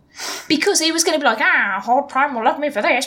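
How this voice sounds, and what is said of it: Poor cartoon villain voice impression. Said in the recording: “why does he sound like the penguin? ... why does he sound like Burgess Meredith when you do it? ... I 100% cannot do a Skeletor accent, as you can 100% tell, because I just did a terrible one.”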